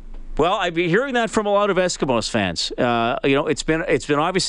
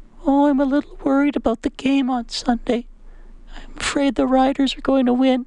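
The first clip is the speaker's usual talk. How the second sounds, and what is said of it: Imitates his mother's voice. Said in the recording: “I'll do the voice she used when she told me this afternoon”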